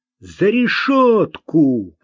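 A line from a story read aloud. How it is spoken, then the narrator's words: Shouted. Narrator (Russian): крикнул Марк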